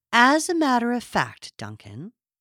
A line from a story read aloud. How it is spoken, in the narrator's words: Nora replied, speaking to him in the indulgent tones of a greatly burdened schoolmistress